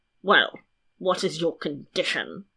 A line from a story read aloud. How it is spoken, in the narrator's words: growled the king